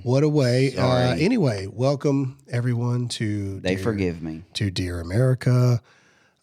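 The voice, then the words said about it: Calm, soothing voice like Mr. Rogers. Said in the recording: “I'm talking to you in a calm voice because many people yesterday told me that I yelled too much ... calming voice ... You're starting to sound like Mr. Rogers.”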